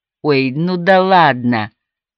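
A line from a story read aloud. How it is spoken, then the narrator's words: Drawled. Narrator (Russian): протянула Мими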